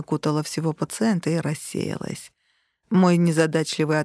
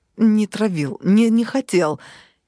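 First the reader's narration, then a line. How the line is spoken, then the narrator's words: Hysterical childlike wail. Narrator (Russian): Истерически завопил Вадик, совершенно по-детски всхлипнул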